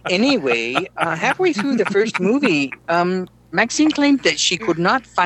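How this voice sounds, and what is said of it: Usual voice. Nothing is said of it.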